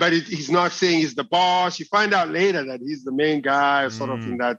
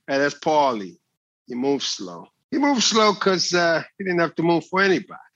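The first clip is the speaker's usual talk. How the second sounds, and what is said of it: Movie gangster accent. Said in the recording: “Really, really good accent as well. ... I watch a lot of gangster movies.”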